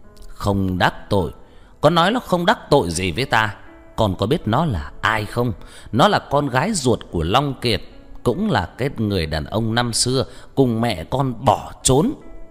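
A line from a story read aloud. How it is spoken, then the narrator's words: Angry voice. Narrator (Vietnamese): giọng nói tức giận của ông ta vang lên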